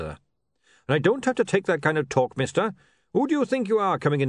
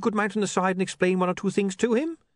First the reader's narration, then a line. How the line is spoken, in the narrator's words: He said quickly